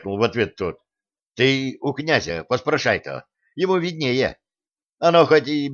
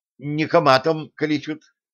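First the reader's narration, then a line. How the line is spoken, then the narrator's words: Plain. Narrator (Russian): ответил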